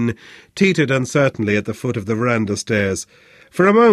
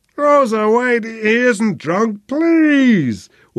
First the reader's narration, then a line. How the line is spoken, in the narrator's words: wailed Flynn